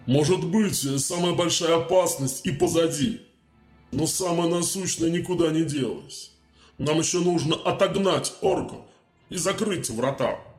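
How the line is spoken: Grumbling. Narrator (Russian): Первый рыцарь проворчал

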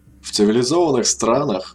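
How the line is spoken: Slightly tense voice. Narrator (Russian): начал слегка напряженным голосом

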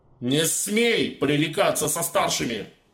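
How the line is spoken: Barked. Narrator (Russian): рявкнул маг

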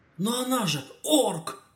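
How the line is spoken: Exclaimed. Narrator (Russian): воскликнул Кадгар

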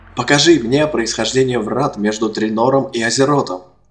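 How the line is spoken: Shouting. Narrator (Russian): он прокричал

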